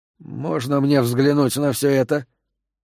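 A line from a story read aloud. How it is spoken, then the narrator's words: Quiet question. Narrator (Russian): Аарон тихо спросил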